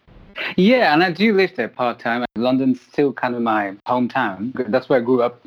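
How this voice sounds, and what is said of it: Hybrid London-based accent. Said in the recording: “I can tell by the accent ... Me and my accent, it's a bit of a hodgepodge. Quite hybrid. I'd say my bass accent probably comes from London.”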